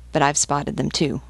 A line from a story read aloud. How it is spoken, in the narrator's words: muttered Gakwal